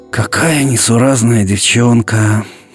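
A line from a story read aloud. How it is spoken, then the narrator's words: Sighing mother. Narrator (Russian): вздохнула мама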